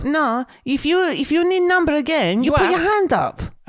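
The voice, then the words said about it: Imitated Greek accent, bingo caller. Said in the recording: “We can't do a Greek accent.”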